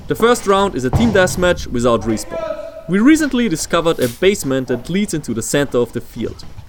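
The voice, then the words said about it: Swedish or European accent. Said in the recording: “he's from like Sweden or something. ... I kind of figured with the accent. ... somewhere in Europe.”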